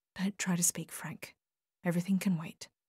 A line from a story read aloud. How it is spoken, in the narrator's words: whispered close to his face